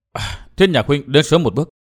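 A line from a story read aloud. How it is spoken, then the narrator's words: Soft sighing woman. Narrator (Vietnamese): Nàng thở dài khẽ nói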